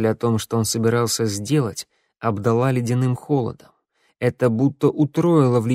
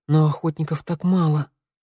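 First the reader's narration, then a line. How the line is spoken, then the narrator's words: Breathy exhale. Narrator (Russian): выдохнула Санда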